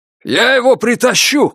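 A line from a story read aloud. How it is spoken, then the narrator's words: Shouted. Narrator (Russian): крикнул Фут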